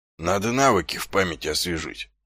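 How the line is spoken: Muttering. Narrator (Russian): пробормотал он

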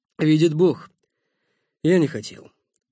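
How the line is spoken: Frightened breathless exhale. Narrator (Russian): выдохнул Никита, сам устрашенный действием инферно

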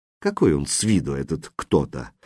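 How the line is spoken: Quiet repeating. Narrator (Russian): Повторял он все так же негромко

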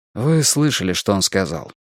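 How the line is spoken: Sighing. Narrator (Russian): вздохнул Стив

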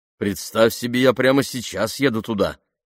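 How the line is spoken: Plain. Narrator (Russian): ответил Бен

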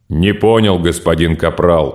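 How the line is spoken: Monotone drone. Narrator (Russian): монотонно прогудел Драмба

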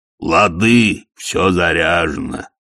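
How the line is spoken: Cheerful booming. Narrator (Russian): весело прогудел Детрит

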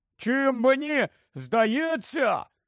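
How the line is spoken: Shout after silence. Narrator (Ukrainian): крикнув Рон після довгої мовчанки

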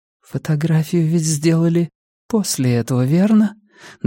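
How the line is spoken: Trembling voice. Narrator (Russian): дрожащим голосом сказала Пенелопа

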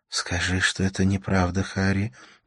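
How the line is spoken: Whisper. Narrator (Russian): прошептала она

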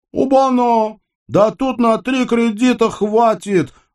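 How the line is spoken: Joyful yell. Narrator (Russian): радостно заорал коллектор

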